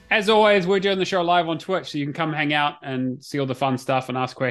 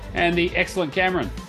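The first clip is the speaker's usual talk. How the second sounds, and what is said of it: Sarcastic tone. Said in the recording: “Why do you sound so sarcastic when you say that?”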